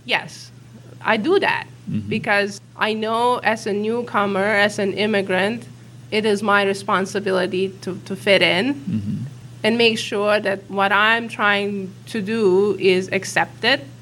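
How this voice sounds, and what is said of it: Immigrant's non-native English accent. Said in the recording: “because of my accent ... As an immigrant, do I try to work on my accent”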